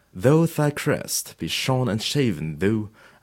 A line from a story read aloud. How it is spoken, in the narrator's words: I said